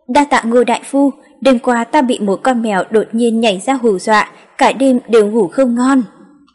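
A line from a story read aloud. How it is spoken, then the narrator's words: Laughing loudly. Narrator (Vietnamese): Bình Dương quận chúa cười lớn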